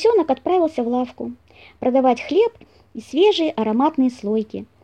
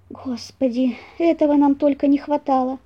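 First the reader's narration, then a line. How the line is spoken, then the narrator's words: Groan. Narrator (Russian): простонал зайка-пекарь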